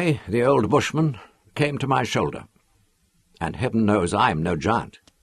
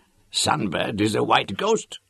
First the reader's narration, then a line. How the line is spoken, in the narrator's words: he wheezed